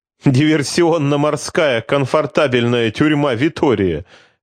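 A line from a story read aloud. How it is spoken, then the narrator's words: Chuckling. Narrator (Russian): хохотнул оберштурмбанфюрер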